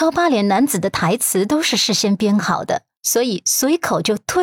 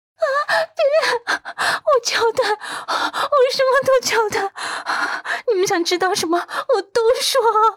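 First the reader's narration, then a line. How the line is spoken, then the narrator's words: Breaking down sobbing. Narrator (Chinese): 他崩溃的大哭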